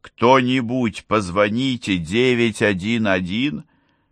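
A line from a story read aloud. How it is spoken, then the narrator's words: Groaning. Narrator (Russian): Боб снова застонал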